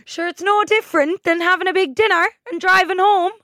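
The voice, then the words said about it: Bad put-on Kerry accent. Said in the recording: “I'm about to do a really bad Kerry accent... You sounded Jamaican.”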